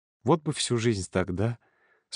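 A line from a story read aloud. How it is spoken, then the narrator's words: Quiet question. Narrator (Russian): спросил Володя негромко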